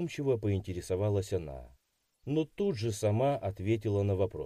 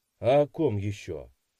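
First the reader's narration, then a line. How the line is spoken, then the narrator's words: Snorted. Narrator (Russian): хмыкнул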